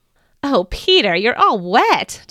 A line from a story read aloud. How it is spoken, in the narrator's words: Jesus laughed